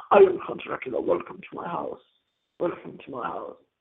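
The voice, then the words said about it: Christopher Lee's Dracula impression. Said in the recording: “I can't even do the voice the way Christopher Lee did it in this movie.”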